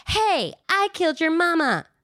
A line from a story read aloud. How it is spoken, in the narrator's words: She worries about it, so she runs into the clearing and shouted